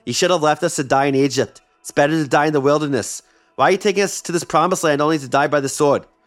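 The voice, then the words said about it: Put-on New York accent. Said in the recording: “I don't know why I did a New York accent, but I had to.”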